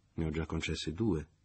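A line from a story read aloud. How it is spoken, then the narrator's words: Plain. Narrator (Italian): disse Leo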